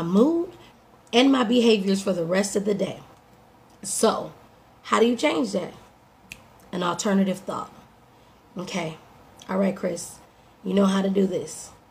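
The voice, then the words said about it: Slightly hoarse voice. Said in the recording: “My voice is a little hoarse because my body is responding to those changes.”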